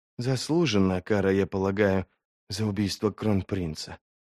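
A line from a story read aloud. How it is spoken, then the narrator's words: Whisper. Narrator (Russian): прошептала Арди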